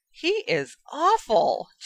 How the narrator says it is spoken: Ginny gasped

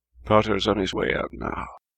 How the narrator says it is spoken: Moody muttered at him

